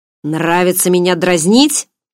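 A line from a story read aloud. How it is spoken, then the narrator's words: Growled question. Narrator (Russian): с рычанием поинтересовался Барс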